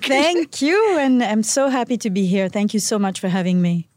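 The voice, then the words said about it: French accent. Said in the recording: “she has a very fabulous accent ... the accent is very special ... oh, that's the French girl”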